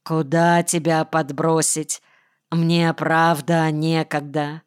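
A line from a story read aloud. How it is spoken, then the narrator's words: Dull, tired. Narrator (Russian): спросил тусклым, усталым голосом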